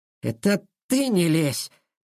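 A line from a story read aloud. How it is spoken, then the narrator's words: Hissed. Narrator (Russian): Прошипел он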